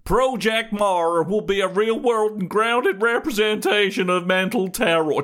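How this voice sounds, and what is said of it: Put-on American accent. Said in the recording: “with your American accent”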